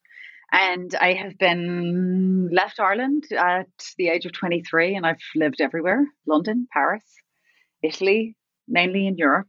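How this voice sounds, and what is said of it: Irish accent. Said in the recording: “I love her accent ... the accent is a dead giveaway”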